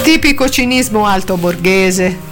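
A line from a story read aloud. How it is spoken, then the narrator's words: Remarked while laughing. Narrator (Italian): osservò Angela, ridendo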